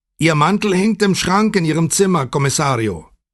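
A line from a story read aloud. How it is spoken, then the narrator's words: Calling after someone. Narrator (German): rief Puccetti ihm nach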